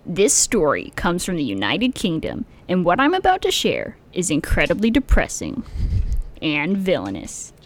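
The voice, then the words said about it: Imitates another person's voice. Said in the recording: “It's a very good impression.”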